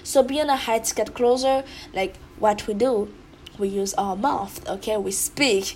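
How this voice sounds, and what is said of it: Strong accent speaking English. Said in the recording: “especially when it comes down to speak English, because you guys can hear it. I have a very strong accent.”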